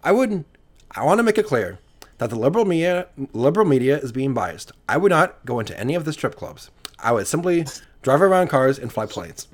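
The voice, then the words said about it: Ben Shapiro impression. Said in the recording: “that wasn't a bad Ben Shapiro impression.”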